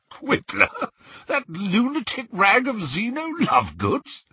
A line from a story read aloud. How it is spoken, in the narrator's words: he spluttered